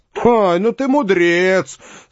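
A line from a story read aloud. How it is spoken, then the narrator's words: Speaking with loud laughter. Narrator (Russian): сказал с громким хохотом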